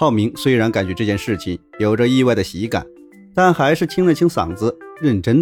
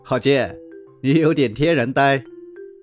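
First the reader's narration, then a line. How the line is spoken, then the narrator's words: Surprised, smiling. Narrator (Chinese): 戴蒙在一阵惊讶后，微笑着对郝建说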